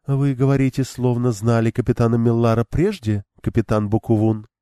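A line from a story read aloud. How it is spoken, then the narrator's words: Even, slightly questioning. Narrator (Russian): проговорила Элейн ровным голосом, лишь слегка изменив интонацию на вопросительную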